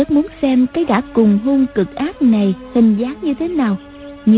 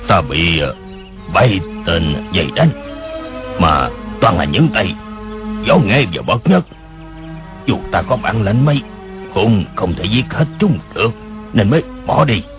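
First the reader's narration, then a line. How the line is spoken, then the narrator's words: Alternating shrill and deep voice. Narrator (Vietnamese): Tiếng người khi the thé khi ồm ồm kia nói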